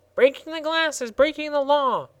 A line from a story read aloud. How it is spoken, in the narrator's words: squeaked the gardener angrily